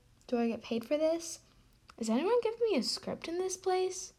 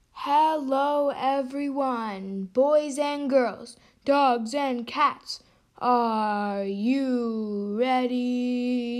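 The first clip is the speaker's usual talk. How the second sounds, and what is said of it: Sports announcer voice. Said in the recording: “talking like a sports announcer”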